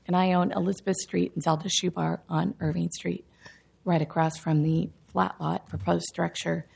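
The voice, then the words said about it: Hoarse, raspy voice. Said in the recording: “Sorry, I have laryngitis.”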